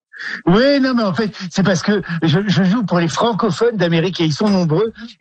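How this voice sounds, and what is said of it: Ch'ti northern French accent. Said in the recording (French): “quand on est ch'ti et qu'on a un accent ch'ti ... le ch'ti et l'américain, c'est un peu sur la même fréquence vocale. Hein. C'est très haut.”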